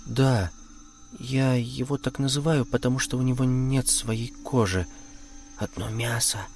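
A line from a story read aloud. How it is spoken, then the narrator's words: Barely audible speech. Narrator (Russian): еле слышно сказала Марина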